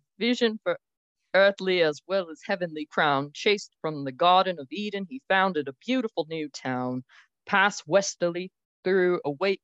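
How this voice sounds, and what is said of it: Put-on British-sounding accent. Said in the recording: “That, was was British accent. ... I was trying really hard for Western.”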